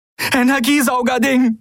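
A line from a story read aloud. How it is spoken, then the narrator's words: Breathless reply. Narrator (German): gab Endriel atemlos zurück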